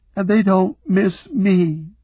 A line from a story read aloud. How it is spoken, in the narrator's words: she sobbed